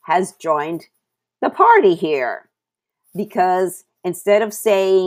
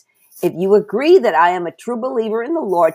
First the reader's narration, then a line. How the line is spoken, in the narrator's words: she says